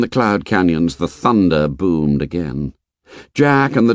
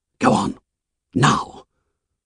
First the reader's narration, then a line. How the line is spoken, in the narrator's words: He whispered urgently to the others